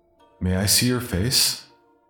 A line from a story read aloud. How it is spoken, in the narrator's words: The holder will laugh kindly